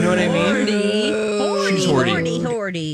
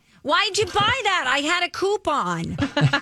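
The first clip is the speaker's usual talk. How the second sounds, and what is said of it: Imitates another person's voice. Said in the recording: “my impression of my mom”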